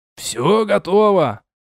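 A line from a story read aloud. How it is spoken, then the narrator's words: Shouted. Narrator (Russian): крикнул мне Ройг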